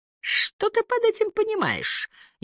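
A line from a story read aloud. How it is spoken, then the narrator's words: Snide question. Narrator (Russian): ехидно спросила Стелла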